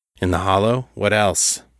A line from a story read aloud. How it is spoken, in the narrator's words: David asked, grimly